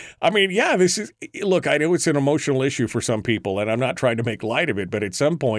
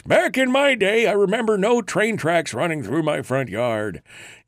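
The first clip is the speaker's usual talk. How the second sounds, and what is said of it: Old man voice. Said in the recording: “all I hear is the old man voice.”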